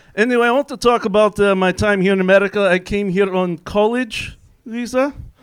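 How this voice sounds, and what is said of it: Put-on Russian accent. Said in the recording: “I do come from Russia, if you know the slight twang in my accent”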